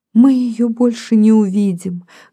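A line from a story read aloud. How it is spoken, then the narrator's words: Tearful speech. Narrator (Russian): говорит одна сквозь слезы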